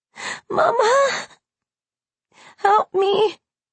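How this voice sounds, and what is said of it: Hoarse, dazed little child's voice. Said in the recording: “hoarse, dazed little voice”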